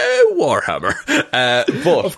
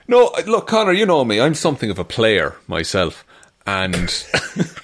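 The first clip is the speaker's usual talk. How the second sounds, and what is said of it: Put-on Irish accent. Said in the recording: “I'll do an Irish accent”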